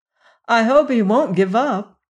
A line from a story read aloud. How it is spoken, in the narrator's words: said Ojo anxiously